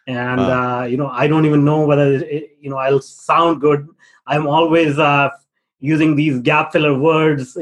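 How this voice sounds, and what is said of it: Non-native English accent. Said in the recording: “my accent is not native”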